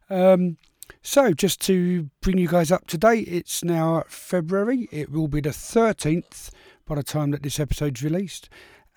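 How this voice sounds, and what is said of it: Husky, hoarse voice. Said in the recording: “I've got a little bit of a sexy voice going on today. That's because I've been suffering a little bit for the last 2-3 weeks with this throat.”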